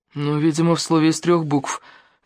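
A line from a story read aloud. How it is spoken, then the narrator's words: Grumbling. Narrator (Russian): буркнул Денис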